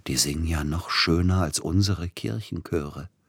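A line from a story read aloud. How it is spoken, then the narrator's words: Whispered. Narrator (German): flüsterte Peter Iljitsch Silotti zu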